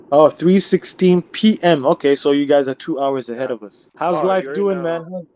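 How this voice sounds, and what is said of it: American-sounding accent. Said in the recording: “But you're American living in England... Accent?”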